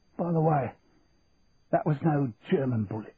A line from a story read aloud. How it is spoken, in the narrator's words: choked Tommy as a trickle of blood began to run out of his mouth